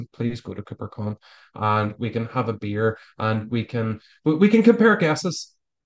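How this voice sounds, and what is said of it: Irish accent. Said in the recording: “my persuasive Irish accent.”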